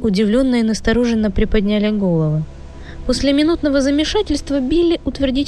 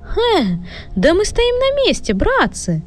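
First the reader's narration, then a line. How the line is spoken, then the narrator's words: Exclamation. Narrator (Russian): Уот воскликнул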